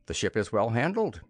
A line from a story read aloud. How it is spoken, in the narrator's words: said